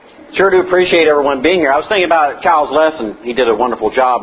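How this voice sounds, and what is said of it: Fast-talking Southern US accent. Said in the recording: “fast-talking Southerner”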